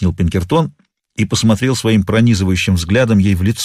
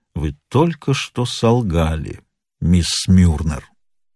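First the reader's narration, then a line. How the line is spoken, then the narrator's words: Slow, stressing each word. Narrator (Russian): проговорил медленно, с ударением на каждом слове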